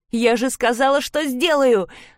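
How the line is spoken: Shouting. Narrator (Russian): закричала

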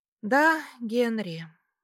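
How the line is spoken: Pensive sigh. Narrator (Russian): вздохнула задумчиво

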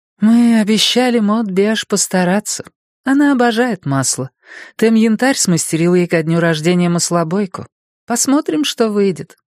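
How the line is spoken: Sighing. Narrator (Russian): вздохнула Люси Грей

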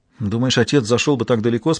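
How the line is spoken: Plain. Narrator (Russian): спросила

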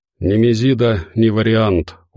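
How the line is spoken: Tiredly said. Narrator (Russian): устало сказала Марина

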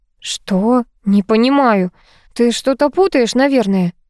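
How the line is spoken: Strained, forced out. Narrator (Russian): выдавила Ольга

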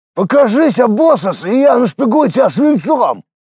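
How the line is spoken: Shouting. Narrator (Russian): Заорали

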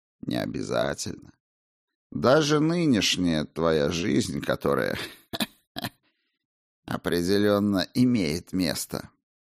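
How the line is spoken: Giggling. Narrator (Russian): он хихикнул

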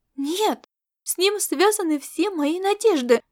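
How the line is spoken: Ardent exclamation. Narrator (Russian): Жаром воскликнула Аэлита

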